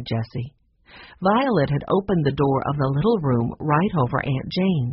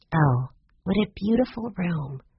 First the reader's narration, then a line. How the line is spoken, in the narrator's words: she whispered